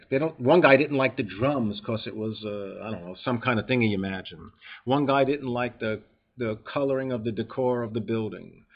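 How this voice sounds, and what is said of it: New York accent. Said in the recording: “people don't like my accent. They don't like my New York sound.”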